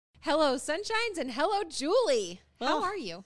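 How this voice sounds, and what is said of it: Yelling greeting. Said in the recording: “Why am I yelling?”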